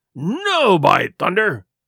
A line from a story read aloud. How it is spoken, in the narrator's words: he cried